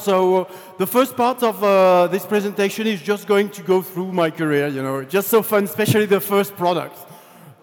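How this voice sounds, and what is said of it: Heavy foreign accent. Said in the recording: “I have a, a heavy accent”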